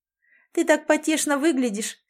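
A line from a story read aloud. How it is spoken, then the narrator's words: Girl laughing. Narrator (Russian): смеялась девушка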